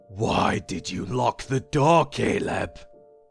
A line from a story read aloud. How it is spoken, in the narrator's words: The booming voice shook me to my core